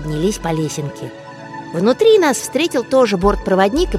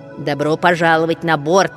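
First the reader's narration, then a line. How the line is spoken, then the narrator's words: Stern. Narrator (Russian): строго сказала бортпроводник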